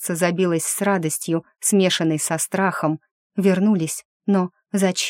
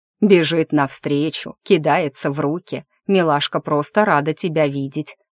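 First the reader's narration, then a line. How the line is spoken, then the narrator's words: Familiar laughing voice. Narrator (Russian): знакомо хохотнул сзади голос Ариаса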